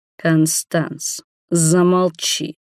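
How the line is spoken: Low growl. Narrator (Russian): низко прорычал Роберт

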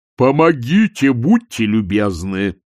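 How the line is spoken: Apparition roaring. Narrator (Russian): взревело видение

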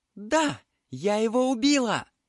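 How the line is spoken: Girl shouting. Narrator (Russian): закричала девушка

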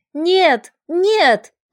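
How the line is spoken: Sudden scream. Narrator (Russian): закричала вдруг странная женщина

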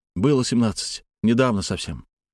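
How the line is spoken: Calm reply. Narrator (Russian): спокойно ответил Алексей

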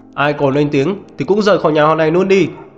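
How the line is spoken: Angry shout. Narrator (Vietnamese): Diệp Pháp Hồng hét lên giận dữ

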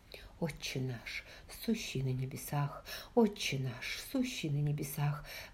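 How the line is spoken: Whispered under breath. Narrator (Russian): шептал себе под нос Эмбрам

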